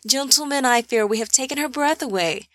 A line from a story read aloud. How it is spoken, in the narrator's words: He laughed and continued